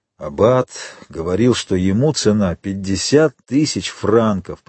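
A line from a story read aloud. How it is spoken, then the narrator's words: Muttered. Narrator (Russian): пробормотал Кадрус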